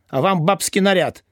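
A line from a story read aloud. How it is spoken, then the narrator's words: Stung snapping retort. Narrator (Russian): огрызнулся уязвленный Тюльпанов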